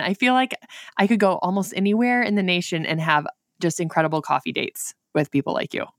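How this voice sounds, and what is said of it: Northern Michigan accent. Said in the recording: “I am in northern Michigan, and up here we think we don't have accents, but I realize that I probably sound like Sarah Palin ... that is where my accent is from. We're only 2 hours south of Canada, so very northern Michigan.”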